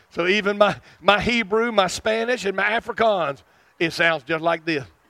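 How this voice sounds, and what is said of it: Southern US accent. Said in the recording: “I can't get rid of this accent... I'm from South Arkansas”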